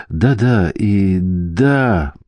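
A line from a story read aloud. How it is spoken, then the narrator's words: Weak moan. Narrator (Russian): простонал Бенедикт, явно ослабевший после пережитого наслаждения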